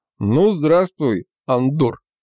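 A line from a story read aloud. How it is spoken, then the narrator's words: Booming big man's voice. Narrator (Russian): прогудел здоровяк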